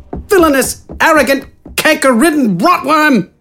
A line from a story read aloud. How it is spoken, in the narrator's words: Wither yelled